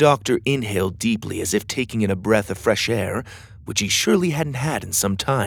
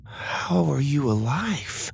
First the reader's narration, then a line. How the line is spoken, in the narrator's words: Lydia whispered